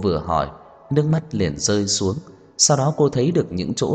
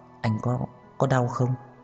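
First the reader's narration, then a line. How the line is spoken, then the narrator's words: Gentle question. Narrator (Vietnamese): Cô nhẹ nhàng hỏi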